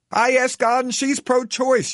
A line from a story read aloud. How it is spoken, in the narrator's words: yells back my apparently militant feminist driving partner with an anger I would never have expected